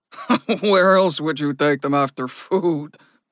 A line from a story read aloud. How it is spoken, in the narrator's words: Ragnar laughed